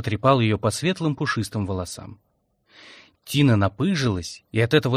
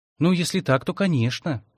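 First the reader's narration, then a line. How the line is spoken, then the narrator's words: Sighing. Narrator (Russian): Тина вздохнула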